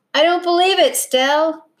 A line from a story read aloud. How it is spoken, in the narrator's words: he yelled at the top of his voice